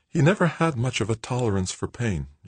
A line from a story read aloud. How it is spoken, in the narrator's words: Joanna murmured, so low that Paul could hardly hear her over the engines